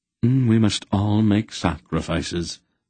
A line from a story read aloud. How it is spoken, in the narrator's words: Silk drawled